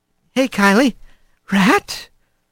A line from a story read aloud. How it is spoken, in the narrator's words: she asked in a quiet voice